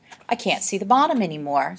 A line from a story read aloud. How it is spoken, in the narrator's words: said Olive nervously